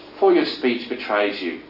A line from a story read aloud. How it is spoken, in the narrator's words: the scoffing firesiders insisted